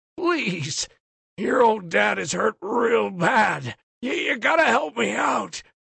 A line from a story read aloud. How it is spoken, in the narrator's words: rasps